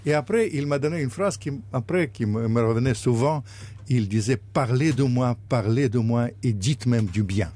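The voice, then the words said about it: Russian accent speaking French. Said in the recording (French): “avec mon accent... je parlais avec moins d'accent... cultivez votre accent... comme je suis d'origine russe”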